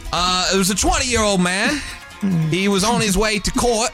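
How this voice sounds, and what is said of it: Bad put-on British accent. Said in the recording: “Man, your accent... it's so bad. It's so bad.”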